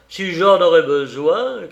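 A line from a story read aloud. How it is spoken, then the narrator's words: Shouting. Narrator (French): cria Maurice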